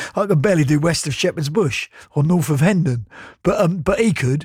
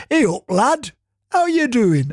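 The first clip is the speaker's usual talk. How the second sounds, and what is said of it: Weak attempt at Yorkshire accent. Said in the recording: “the heaviest Yorkshire Batley accent you'll ever encounter ... I can't do Yorkshire.”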